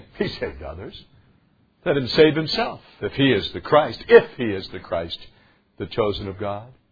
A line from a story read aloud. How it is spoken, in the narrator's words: the rulers with them sneered, saying